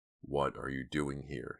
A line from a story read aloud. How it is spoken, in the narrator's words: growled in a deep, hollow voice